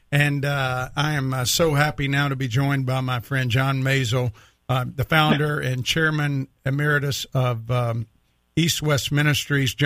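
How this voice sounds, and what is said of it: Weak, recovering voice. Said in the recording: “my voice is still a little weak, but I'm recovering”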